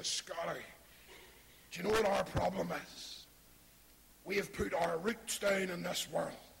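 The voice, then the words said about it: Northern Irish accent impression. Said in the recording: “he's from Ballymena somewhere. He's not Scottish, but that's my best impression.”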